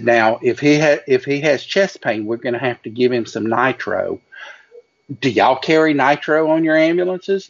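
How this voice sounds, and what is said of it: Imitated Southern belle voice. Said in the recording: “doing the voices ... She was the wilting magnolia. She was a true Southern belle”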